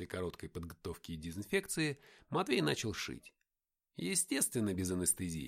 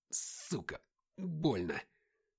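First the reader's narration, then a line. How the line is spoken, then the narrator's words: Angry hiss. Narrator (Russian): прошипел я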